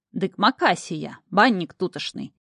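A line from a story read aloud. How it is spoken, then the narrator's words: Greasy leering voice. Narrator (Russian): сальным голосом добавил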